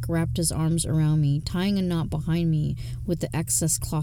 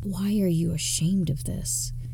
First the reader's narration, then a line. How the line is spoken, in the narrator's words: Hank whispered in my ear